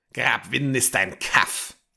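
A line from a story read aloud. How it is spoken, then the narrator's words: Old man hissing. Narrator (German): zischte der Alte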